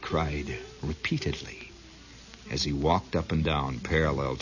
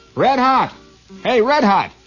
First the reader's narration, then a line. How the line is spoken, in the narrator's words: he shouted